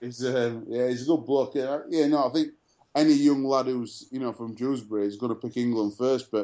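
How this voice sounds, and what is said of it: Usual voice. Nothing is said of it.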